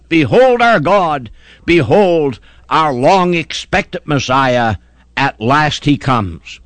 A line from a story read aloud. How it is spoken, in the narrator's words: What Jew will not rush forth to exclaim with a mighty shout